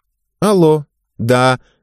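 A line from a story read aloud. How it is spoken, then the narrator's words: Loud reply. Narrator (Russian): громко ответила девушка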